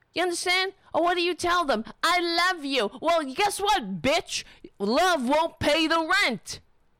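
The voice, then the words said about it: Angry screaming. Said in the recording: “I'm screaming.”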